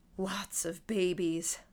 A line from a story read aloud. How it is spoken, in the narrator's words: He added in a hollow, breathy voice